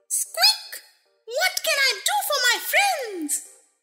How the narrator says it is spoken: the Queen herself, who asked in her squeaky little voice

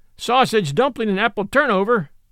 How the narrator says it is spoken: shouted the boy

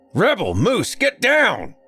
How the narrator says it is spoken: came a deep bellow from the front door of the house

